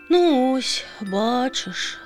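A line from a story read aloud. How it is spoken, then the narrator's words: Sighing again. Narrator (Ukrainian): знову зітхнула пташка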